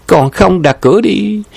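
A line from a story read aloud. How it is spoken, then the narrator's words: Laughing. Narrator (Vietnamese): Nhậm Mi Mi bật cười nói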